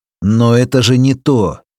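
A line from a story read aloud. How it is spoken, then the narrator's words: Desperate shout. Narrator (Russian): выкрикнул я, чувствуя, что все рушится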